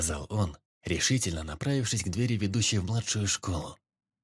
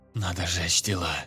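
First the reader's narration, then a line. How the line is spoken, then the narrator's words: Whisper. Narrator (Russian): шепотом проговорил лейтенант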